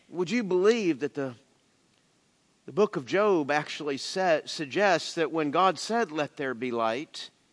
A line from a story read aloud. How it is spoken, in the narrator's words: he whispered